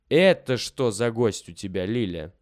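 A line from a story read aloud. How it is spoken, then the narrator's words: Plain. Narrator (Russian): спросил Володя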